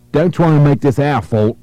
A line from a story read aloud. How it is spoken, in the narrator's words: the caller snapped